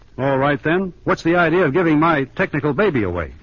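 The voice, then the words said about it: Raised, shouting voice. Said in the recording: “raise your voice ... If you're going to shout...”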